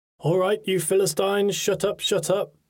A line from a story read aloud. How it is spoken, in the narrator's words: boomed his deep Welsh accent